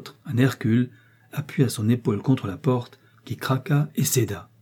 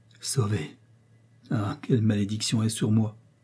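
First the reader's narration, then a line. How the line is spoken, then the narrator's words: Murmured. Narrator (French): murmura-t-elle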